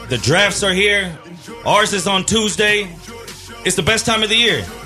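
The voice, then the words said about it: Excited, hyped-up voice. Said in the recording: “I'm hype. I hope you can hear it in my voice.”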